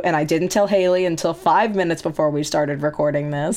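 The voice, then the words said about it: Hoarse, funky-sounding voice. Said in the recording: “My voice is going to sound funky because I had laryngitis up until two days before we were recording this.”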